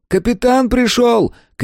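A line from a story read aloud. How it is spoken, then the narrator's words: Shouted from the door. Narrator (Russian): крикнул от двери сын Сейерза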